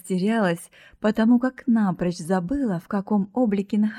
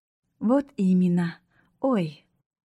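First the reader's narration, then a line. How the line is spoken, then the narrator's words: Affectionate, smiling. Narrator (Russian): Ласково заулыбалась родительница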